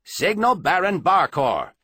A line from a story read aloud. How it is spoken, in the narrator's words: snapped over his shoulder